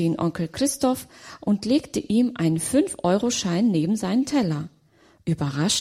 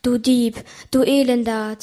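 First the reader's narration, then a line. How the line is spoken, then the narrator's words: Hissing. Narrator (German): zischte es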